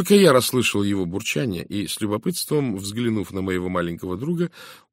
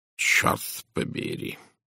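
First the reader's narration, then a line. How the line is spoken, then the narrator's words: Muttering under breath. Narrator (Russian): пробурчал себе под нос Пуаро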